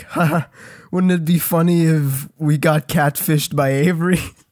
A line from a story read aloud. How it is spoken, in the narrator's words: He starts laughing